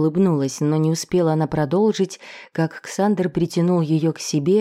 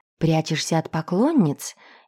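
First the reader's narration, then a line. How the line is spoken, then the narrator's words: Snide whisper. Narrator (Russian): ехидно прошептала Мари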